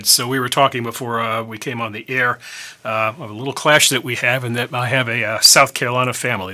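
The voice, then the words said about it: Northern US accent, not Southern. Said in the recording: “I have the Yankee accent, not a Southern accent.”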